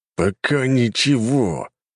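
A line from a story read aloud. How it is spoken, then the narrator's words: Through gritted teeth. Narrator (Russian): процедил Кулаков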